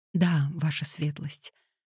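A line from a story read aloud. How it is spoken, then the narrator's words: Whispered reply. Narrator (Russian): шепотом ответила Пандора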